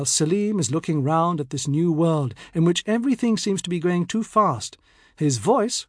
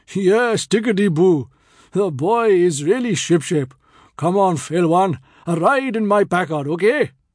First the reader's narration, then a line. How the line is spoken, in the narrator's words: Hanif booms